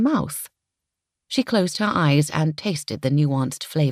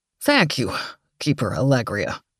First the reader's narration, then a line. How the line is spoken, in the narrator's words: Donald wheezed, clearly mortified